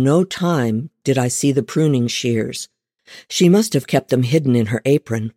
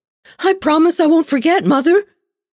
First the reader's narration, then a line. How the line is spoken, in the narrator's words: cried